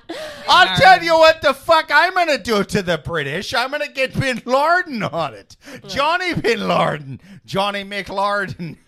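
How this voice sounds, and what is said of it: Put-on Irish accent. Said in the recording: “The Irish accent”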